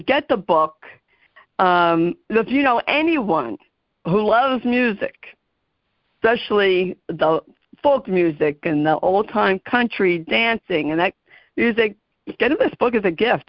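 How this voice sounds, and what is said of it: New Jersey accent. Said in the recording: “my Jersey accent. Sometimes people can't understand me.”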